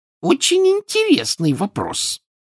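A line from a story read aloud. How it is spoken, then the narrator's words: Shrill. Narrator (Russian): визгливо ответила она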